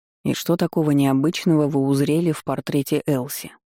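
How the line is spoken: Snorting. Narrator (Russian): хмыкнул тот

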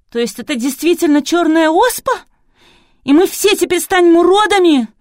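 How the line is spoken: Terrified cry. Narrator (Russian): в ужасе выкрикнула Василиса

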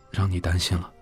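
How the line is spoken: Soft, sad. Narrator (Chinese): 仁义心中一酸，轻声说

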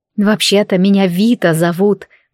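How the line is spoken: Grumbled. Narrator (Russian): пробурчала я

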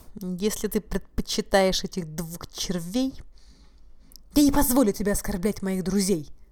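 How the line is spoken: Through gritted teeth. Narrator (Russian): он процедил

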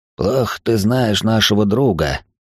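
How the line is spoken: Wheezing. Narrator (Russian): просипел тот, кого называли Джеком

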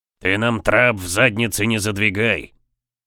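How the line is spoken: Grumbling. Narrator (Russian): проворчал Жак Геран

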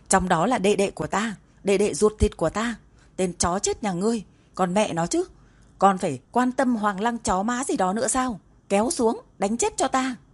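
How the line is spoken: Furious roaring. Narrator (Vietnamese): giận dữ gào thét

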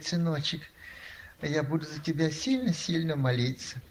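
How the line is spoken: Sighing, tender. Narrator (Russian): Она вздохнула, говорит, и говорит

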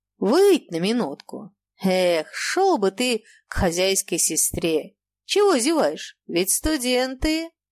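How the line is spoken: Drunken voice. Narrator (Russian): пекарь сказал мне хмельным голосом

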